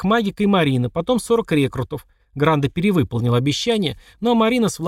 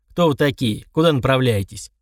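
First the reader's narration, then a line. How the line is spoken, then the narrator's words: Cold. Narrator (Russian): Марина холодно заявила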